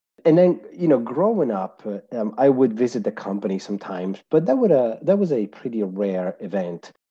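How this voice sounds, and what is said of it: Italian accent. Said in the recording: “I was born and raised in Italy, so that's where my accent is from”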